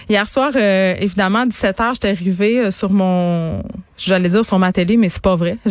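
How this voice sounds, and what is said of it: Saguenay Quebec French accent. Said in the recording (French): “On l'entend à chaque jour avec ton accent ... mon accent du Saguenay”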